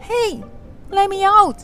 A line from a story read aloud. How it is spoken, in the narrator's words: Young Hansel cried